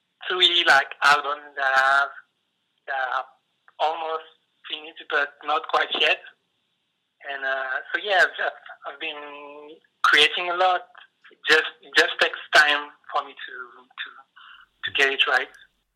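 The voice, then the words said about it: Non-native English accent. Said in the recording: “I hope my accent wasn't too bad and I got myself understood.”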